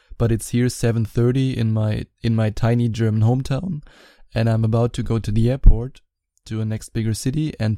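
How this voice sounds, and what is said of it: Raspy morning voice. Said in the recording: “Please excuse my raspy morning voice”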